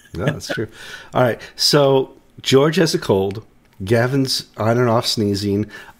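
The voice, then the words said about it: Unusually deep, cold-affected voice. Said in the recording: “I'm recovering from a cold, so I have my really deep voice on”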